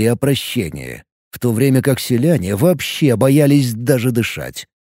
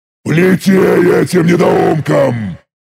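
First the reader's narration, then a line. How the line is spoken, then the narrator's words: Roaring. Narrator (Russian): взревел я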